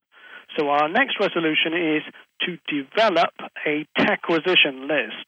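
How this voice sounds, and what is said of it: British accent. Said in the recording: “the one with the British accent.”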